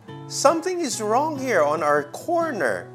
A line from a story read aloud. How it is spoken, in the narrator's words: another boy cried out and said